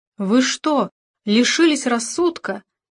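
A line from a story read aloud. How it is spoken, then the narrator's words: Furious exclamation. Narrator (Russian): вне себя воскликнула она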